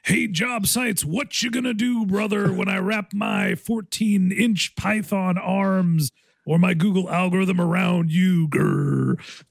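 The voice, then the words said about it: Imitates a pro wrestler's voice. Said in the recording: “my Hulk Hogan impression”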